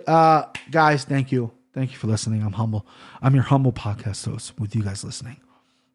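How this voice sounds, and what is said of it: NPR-style radio announcer voice. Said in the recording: “This is very NPR voice”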